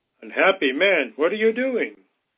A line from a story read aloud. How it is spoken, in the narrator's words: Full of fright, she cried out